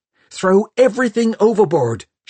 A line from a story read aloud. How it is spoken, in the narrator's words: shouted at him